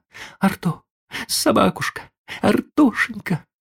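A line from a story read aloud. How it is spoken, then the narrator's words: Boy's tearful echo. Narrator (Russian): вторил ей плачущим голосом мальчик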